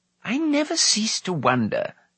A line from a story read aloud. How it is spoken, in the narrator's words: Dalban testily remarked